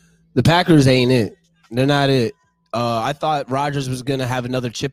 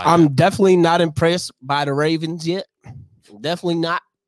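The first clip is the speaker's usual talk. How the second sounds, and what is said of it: Sudden southern American accent. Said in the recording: “my southern accent came out of nowhere”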